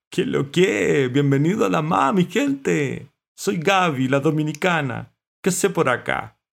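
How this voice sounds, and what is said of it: Caribbean Spanish accent. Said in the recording (Spanish): “con acento caribeño”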